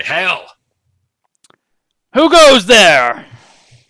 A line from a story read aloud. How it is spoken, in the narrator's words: shout out to the gods and say